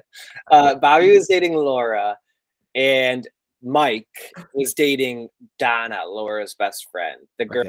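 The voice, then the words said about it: Speaks in vocal fry. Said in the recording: “can you hear my vocal fry?”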